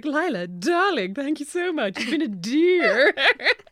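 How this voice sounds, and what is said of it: Weird put-on accent. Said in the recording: “has started putting on a weird accent”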